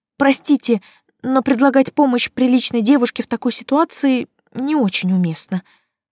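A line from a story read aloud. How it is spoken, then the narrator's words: Desperate breathless exhale. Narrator (Russian): отчаянно выдохнула я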